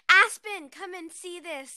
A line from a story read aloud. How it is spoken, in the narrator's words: Cyrene yelled to her cousin